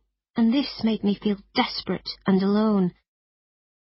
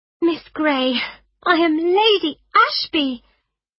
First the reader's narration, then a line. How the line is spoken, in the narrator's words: she said excitedly